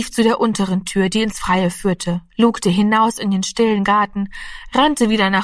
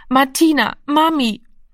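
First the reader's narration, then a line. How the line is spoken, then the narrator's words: Hoarse, exhausted, helpless sobbing. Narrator (German): Heiser und kraftlos vor Erschöpfung sang er, schluchzend und hilflos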